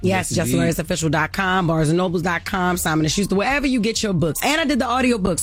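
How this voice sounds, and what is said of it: Baltimore accent. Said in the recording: “this best Baltimore accent”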